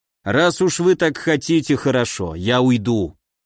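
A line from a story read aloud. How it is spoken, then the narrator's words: Snort then speaking. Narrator (Russian): Ильяс хмыкнул и произнес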